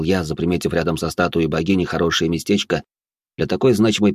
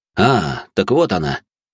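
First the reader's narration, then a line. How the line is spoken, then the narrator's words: Joyful voice. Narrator (Russian): радостным голосом произнес я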